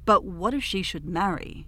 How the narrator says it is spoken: exclaimed the king in sudden consternation at the idea

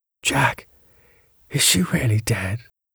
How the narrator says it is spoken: At last, after long pause, he said to me in a faint whisper

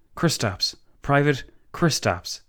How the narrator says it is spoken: the Latvian stammered

